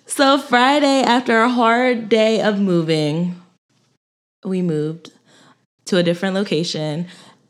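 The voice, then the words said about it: Sick-sounding voice. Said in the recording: “I know you guys can hear it in my voice. I got sick.”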